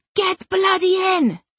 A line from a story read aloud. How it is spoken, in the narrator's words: she shouted